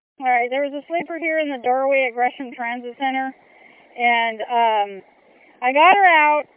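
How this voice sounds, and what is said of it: Breathless, out of breath. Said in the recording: “I'm running out of breath here.”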